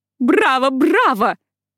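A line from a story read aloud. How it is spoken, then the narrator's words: Shouted. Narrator (Russian): выкрикнула она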